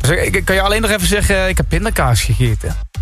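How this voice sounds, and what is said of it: Put-on Limburg accent. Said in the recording (Dutch): “zo'n Limburgs accent nadoen ... Ik vind het echt een prachtig dialect”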